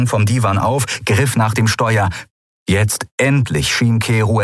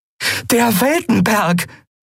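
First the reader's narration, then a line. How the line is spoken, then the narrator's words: Call. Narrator (German): rief Andriel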